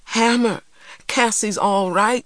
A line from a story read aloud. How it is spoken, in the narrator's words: she cried